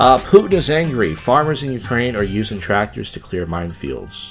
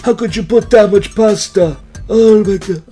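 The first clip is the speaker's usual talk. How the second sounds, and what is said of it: Poor imitation Italian accent. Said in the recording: “that's a terrible Italian accent.”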